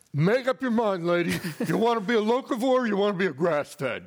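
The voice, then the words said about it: Heavy New York accent. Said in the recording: “in this heavy New York accent”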